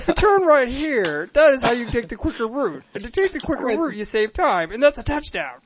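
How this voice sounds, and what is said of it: John Madden impression. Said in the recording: “John Madden voice for directions.”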